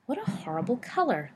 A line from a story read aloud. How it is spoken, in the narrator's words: Lupin murmured